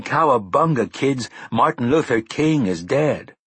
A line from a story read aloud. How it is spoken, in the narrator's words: Buffalo Bob Smith of the Howdy Doody Show yelling